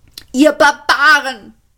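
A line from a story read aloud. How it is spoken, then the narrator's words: Shouted. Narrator (German): schrie er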